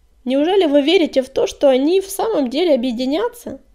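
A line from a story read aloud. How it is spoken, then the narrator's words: Creaky voice. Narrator (Russian): проскрипела Щербатая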